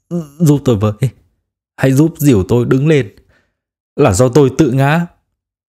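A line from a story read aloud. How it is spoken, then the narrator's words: Trembling. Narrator (Vietnamese): run rẩy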